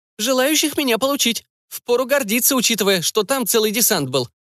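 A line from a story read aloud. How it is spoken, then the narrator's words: Wry snort. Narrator (Russian): хмыкнул Кэтсу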